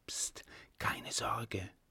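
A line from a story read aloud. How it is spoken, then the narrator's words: Whispering. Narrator (German): flüsterte es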